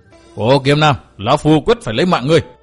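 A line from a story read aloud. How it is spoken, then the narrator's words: Enraged loud roar. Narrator (Vietnamese): Phác Ma Thiên máu nóng liền xông lên đến óc, gầm to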